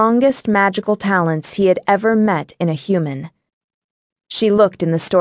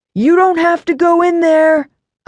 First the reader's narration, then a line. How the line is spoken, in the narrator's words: a man yelled